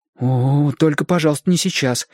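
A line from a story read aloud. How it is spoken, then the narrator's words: Frightened reply. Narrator (Russian): испуганно ответил Шестипалый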